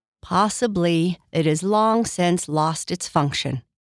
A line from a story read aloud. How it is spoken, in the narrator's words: her glass said